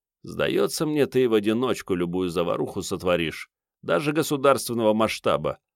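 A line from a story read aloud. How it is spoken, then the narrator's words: Grumbling. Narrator (Russian): пробурчал Керст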